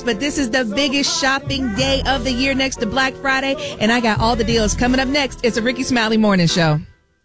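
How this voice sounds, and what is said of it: Excited, energetic voice. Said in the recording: “I don't know if you can hear the excitement in my voice”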